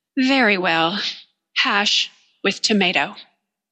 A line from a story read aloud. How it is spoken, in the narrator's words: I sighed, and I said